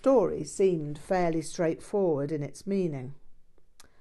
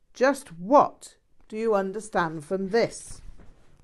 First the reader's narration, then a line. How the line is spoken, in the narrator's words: Rinpoche barked